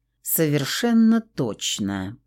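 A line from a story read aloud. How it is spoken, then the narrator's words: Through clenched teeth. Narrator (Russian): процедил полицейский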